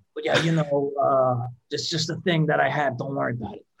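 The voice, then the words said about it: Raspy imitation of another person's voice. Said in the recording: “my Tim impression ... he's got a raspy voice”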